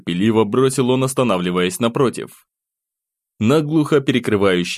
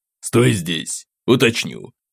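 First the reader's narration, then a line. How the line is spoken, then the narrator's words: Displeased mutter. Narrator (Russian): постовой, недовольно буркнув себе под нос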